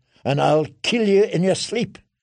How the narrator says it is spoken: she spat

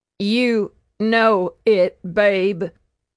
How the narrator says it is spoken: she choked

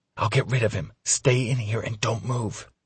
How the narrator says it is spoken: she calls and then whispers

